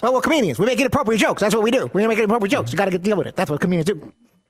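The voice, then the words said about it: Kevin Hart impersonation. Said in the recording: “That's his Kevin Hart impersonation.”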